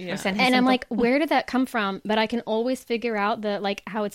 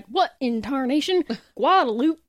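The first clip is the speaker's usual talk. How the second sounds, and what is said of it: Put-on weird Southern accent. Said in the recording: “When I do a weird Southern accent”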